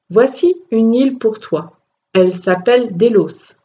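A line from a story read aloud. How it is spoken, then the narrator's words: Plain. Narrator (French): dit-il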